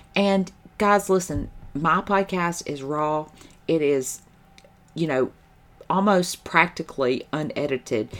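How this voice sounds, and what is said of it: Southern American accent. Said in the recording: “I say y'all, and I say fix it, and I'm from the South ... They're not gonna like my accent.”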